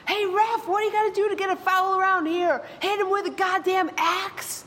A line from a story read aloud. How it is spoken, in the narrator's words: My dad shoots up out of the bleachers and he screams